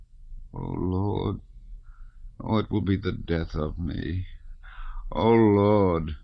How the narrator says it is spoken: moaned the man in a louder voice

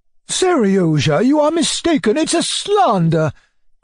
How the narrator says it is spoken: cried my uncle, turning crimson and looking terribly embarrassed

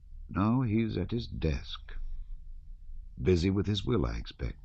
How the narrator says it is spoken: Michael Ivanovitch went on, lowering his voice

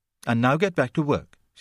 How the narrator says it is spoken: she said impatiently

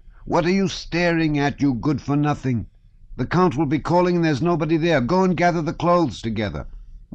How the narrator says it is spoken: Old Daniel Terentich, the Count's valet, shouted

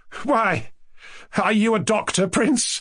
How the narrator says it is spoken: he cried, as simply and good-humouredly as he could

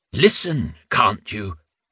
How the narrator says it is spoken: Reuben intoned his answer for extra emphasis

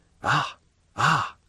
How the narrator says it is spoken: whispered Monte Cristo, with a smile of disappointment

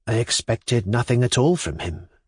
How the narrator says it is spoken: she replied, quietly enough to all outward seeming, yet with a note of irritation in her tone

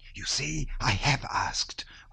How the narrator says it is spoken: whispered Natasha to her little brother and to Pierre

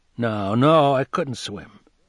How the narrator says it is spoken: sighed

